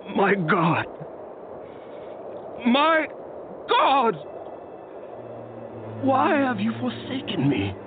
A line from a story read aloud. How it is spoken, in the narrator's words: Jesus cried out in a loud voice